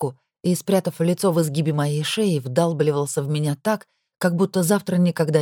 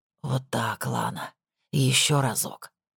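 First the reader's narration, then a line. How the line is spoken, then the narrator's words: Hoarse whisper. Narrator (Russian): хрипло прошептал он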